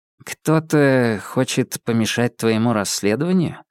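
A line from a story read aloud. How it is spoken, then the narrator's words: Very quiet. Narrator (Russian): Очень тихо спросил Олег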